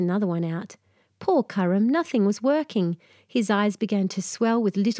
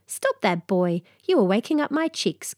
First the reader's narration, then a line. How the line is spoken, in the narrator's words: came a loud chirp